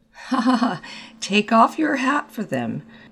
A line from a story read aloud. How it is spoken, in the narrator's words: said the latter, laughing